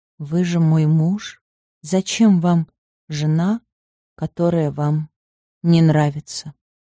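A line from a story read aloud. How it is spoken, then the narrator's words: Said quietly. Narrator (Russian): тихо сказала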